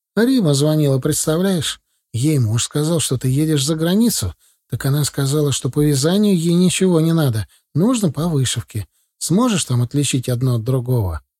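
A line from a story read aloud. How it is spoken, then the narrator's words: Sigh. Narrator (Russian): Вздохнул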